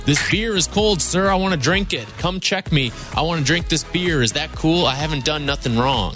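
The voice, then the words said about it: Put-on Ohio good-old-boy accent. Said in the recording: “Sounds like some douche from Cleveland. ... this sounds like a good old boy ... the accent that ... gave us sounded Ohioan to me”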